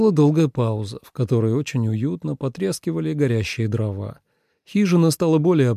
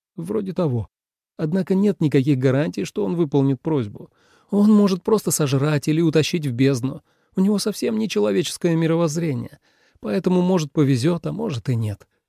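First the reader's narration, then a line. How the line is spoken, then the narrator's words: Hiccuping then giggling. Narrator (Russian): сказал Тобиас и икнул в самом конце фразы, а потом хихикнул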